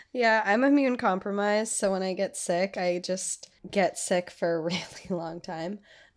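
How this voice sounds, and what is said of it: Dark, raspy voice from a cold. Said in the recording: “I did home a cold. So here's my voice for now ... sound ill ... It's dark and raspy.”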